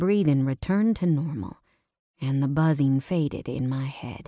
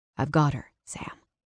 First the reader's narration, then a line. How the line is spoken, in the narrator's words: Jackson said softly